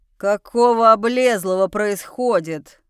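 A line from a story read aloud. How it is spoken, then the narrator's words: Angry growl behind door. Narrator (Russian): Слышится гневное рычание из-за еще одной двери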